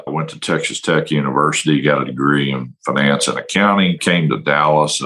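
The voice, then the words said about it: Brooklyn accent. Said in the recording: “don't let the Brooklyn accent throw you off”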